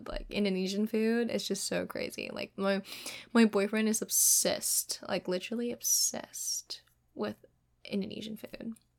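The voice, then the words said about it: Mixed Kiwi, Indonesian, American accent. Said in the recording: “you can still like hear most of my accent is like, oh, are you Australian? Because like it's mixed of like Kiwi, Indonesian, American. It goes to like Australian ... South African? ... it's just a mix of like accent”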